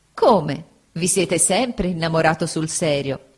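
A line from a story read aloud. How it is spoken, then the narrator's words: Laughing. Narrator (Italian): disse Agnese, sempre ridendo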